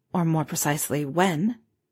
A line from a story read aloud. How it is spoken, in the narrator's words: she quietly added